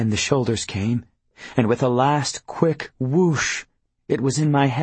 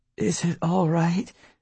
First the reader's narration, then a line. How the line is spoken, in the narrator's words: Pauline asked weakly